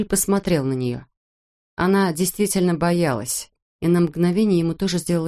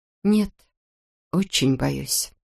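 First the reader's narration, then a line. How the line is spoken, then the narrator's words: Quiet reply. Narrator (Russian): тихо ответила Натали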